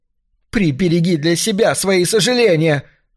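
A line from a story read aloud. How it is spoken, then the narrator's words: Shrieking woman. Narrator (Russian): завизжала она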